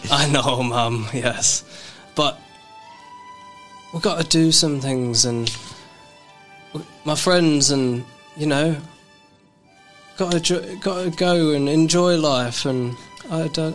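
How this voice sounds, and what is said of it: Accent shifts to English. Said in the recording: “Your accent just changed. ... I'm English now.”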